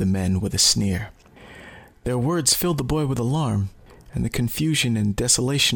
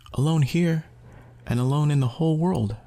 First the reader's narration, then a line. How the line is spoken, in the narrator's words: replied the boy sadly